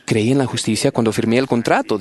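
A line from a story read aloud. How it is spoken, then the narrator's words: Plain. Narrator (Spanish): dijo el deudor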